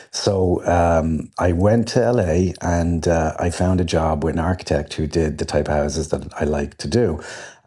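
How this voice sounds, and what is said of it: Irish accent. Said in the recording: “Irish accents go a long way with that... I kept talking in the accent.”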